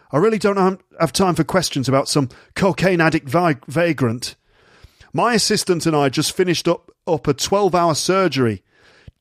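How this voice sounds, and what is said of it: Generic put-on Northern English accent. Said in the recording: “he's Northern. Dr. Yates is Northern. He speaks like this. ... I don't know where my accent's from at all. It's just generic northern.”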